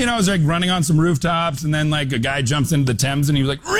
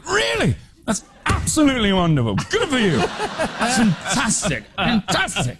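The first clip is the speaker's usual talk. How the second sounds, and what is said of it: Imitates another person's voice, impassioned. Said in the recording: “he's got the greatest accent, and he's so impassioned about everything”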